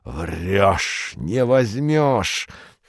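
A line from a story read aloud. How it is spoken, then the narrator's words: Hoarse wheezing. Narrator (Russian): хрипел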